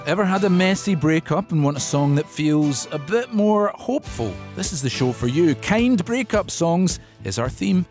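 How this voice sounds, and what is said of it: Scottish accent. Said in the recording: “What about the Scottish accent?”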